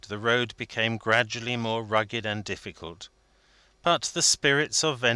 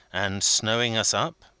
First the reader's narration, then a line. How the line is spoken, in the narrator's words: asked Vendale anxiously